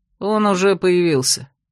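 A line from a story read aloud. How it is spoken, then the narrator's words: Tired mutter, werewolf leader. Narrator (Russian): устало буркнул возникший посреди ковра глава оборотней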